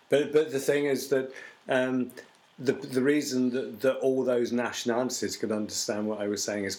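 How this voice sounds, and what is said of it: BBC English accent. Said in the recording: “it's a BBC voice that I learned. I taught myself when I was a kid.”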